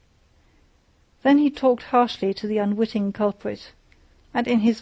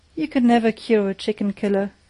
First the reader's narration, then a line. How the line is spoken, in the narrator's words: Judge Scott shook his head sadly